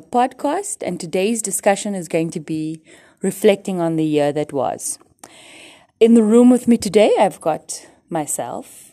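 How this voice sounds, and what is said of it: Put-on polished podcast host voice. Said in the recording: “Why are you talking like that? ... Why do you have a podcast voice?”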